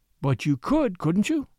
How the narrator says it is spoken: pleaded Miss Trevor

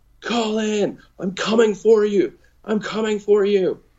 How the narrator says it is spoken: I yelled at him

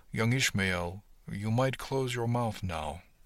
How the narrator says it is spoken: Cookie said quietly

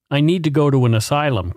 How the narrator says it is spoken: Curtis Bunnell said

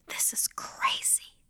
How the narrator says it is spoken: I whispered to myself

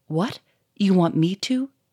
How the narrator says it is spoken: said Victor, in a shaky voice

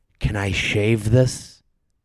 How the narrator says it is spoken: whispers

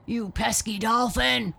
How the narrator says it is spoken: roared a voice

